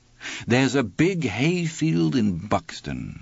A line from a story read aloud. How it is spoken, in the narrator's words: Andy had said